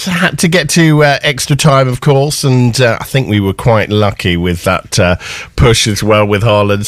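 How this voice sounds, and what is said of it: Slightly hoarse, strained voice. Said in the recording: “I've lost my voice slightly”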